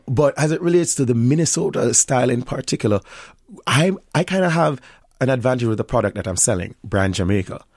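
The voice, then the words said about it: Thick Jamaican accent. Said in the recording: “I was Jamaican... My accent is much thicker”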